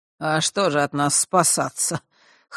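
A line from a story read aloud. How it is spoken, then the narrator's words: Scoffing snort. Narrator (Russian): хмыкнула Хронимара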